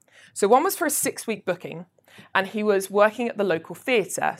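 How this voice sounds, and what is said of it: Essex English accent. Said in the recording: “I'm based in Chelmsford ... in Essex. Yes, I know you can't tell by the accent. And I've tried very hard.”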